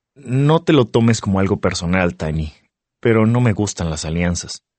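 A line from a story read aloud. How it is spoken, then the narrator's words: Plain. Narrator (Spanish): contesto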